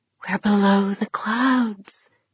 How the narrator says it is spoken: Deirdre breathed

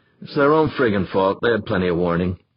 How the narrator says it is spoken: Molina grumbled

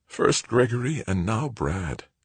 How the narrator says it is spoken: whispered

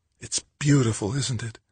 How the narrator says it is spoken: Kathy murmured

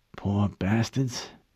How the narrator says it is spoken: whispered

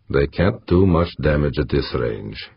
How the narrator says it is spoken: said calmly

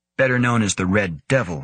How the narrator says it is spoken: Van Neumann added dryly

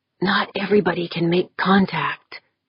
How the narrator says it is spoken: Andy whispered to her, as if afraid he might break Dorn's concentration

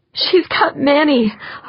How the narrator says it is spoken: Holly exclaimed

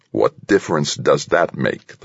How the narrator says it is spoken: the president growled

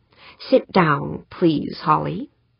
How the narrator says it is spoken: Morgenthau said

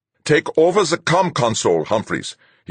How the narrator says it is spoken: he snapped

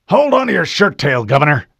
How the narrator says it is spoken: Admiral Whitcomb snapped

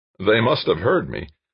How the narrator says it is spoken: Scanwell's voice with a slight chuckle

